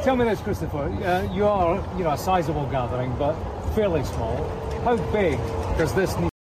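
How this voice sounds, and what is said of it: UK accent. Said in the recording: “That's a UK accent there.”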